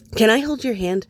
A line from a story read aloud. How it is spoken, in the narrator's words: Eddie blurts out